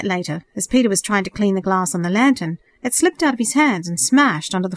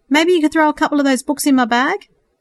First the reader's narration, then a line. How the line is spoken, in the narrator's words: he called out